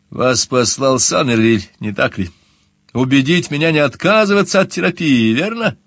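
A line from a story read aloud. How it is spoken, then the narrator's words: Nervous laughter. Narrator (Russian): Я нервно расхохотался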